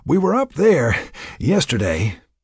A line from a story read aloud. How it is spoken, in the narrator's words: Jack panted as he chugged along